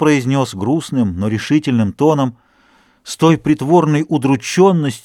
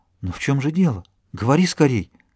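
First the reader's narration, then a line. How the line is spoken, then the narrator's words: Frightened trembling whisper. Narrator (Russian): Она побледнела, начала дрожать и прошептала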